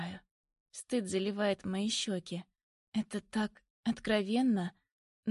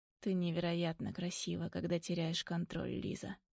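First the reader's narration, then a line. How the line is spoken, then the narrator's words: Quiet. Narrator (Russian): тихо говорит Соколов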